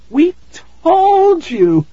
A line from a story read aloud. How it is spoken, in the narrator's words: Tara cried